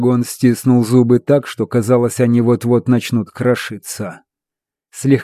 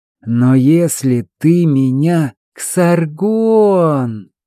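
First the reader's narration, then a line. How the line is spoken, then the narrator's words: Interrupting drawl. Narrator (Russian): протянул собеседник, перебив его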